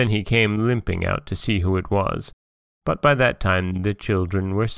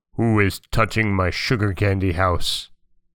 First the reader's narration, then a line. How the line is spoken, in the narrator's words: he growled out